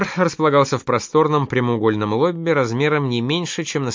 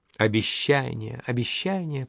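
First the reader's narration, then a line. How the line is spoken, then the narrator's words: Purred. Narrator (Russian): промурлыкала Эльза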